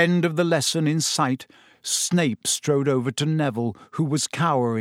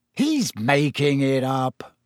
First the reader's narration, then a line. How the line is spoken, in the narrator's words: said Ron savagely